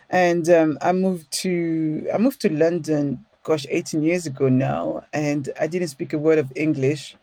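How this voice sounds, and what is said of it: French accent. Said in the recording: “as we can hear from my accent, ... I was born French. ... After all these years, I haven't lost the accent”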